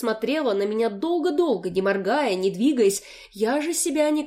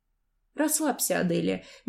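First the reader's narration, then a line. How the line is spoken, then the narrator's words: Soft and calm. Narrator (Russian): мягко и спокойно произнесла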